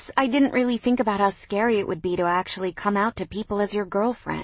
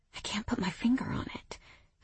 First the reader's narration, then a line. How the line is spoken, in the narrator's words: I murmured